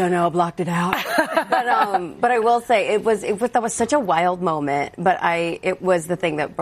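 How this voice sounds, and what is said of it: Usual voice. Nothing is said of it.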